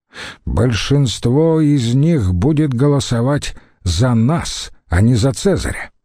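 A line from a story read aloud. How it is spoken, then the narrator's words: Haughty, through gritted teeth. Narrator (Russian): надменно процедил Метелл Сципион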